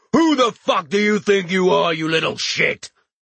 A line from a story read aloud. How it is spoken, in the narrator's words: the giant screamed